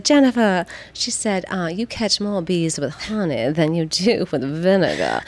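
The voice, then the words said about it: Put-on slow Southern Georgia accent. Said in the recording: “this is going to be a horrible Southern a- accent reiteration ... I love that accent. And you did a great job ... that Southern Georgia accent in particular is so lovely ... so slow and sweet”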